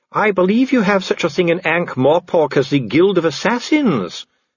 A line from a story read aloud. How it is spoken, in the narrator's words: said Dee calmly